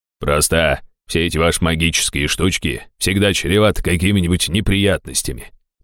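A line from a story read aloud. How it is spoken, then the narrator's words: Grumbling. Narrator (Russian): проворчал он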